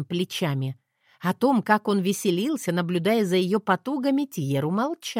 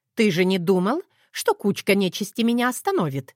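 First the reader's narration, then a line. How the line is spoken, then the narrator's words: Scoffing snort. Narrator (Russian): фыркнула Этлина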